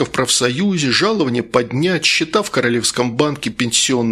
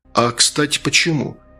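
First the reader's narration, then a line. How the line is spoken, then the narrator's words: Plain. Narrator (Russian): спросил следователь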